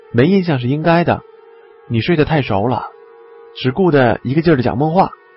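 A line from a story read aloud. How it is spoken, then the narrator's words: Faint smile. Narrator (Chinese): 王刚淡淡的微笑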